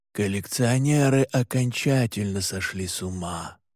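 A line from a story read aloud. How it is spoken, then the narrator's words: Muttered. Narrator (Russian): пробормотал отец Карелли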